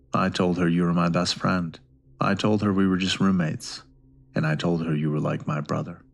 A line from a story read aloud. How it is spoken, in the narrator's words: He gulped and sternly replied